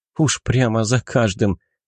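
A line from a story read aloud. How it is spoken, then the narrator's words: Soft laugh. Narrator (Russian): Негромко рассмеялась Аньес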